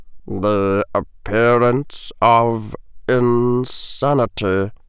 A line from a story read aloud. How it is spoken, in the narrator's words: Severus murmured softly, as though he were speaking to himself